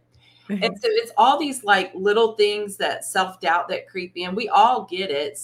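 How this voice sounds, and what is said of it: Southern US accent. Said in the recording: “You're from the South. You have a Southern accent. I love your accent”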